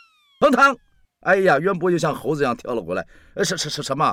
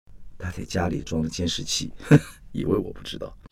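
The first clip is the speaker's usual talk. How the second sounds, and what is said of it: Quiet, whispered line. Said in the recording (Chinese): “挨着他的耳朵，小声的说”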